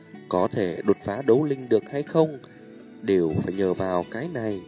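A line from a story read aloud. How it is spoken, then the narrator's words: Soft voice. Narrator (Vietnamese): nhẹ giọng nói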